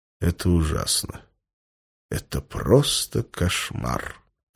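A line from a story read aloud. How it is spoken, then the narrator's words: Quiet. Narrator (Russian): негромко сказал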